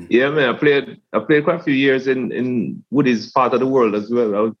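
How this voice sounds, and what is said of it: Geordie accent. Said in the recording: “the Geordie twang in ... voice ... Still got the twang”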